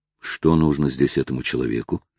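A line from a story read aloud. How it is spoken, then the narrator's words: Muttered to himself. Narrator (Russian): пробормотал про себя Оливер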